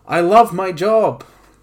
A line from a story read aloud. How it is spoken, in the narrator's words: Justin shouted to the room